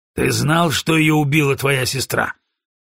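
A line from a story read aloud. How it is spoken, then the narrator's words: Rough question. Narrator (Russian): грубо спросил Броуди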